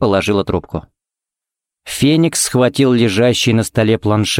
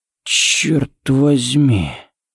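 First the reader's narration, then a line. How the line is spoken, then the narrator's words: Breathed close by ear. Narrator (Russian): выдохнул Харри у него над ухом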